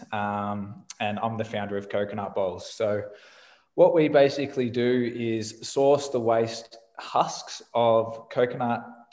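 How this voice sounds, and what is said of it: Australian accent. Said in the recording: “I'm Australian, which you can probably tell from my voice.”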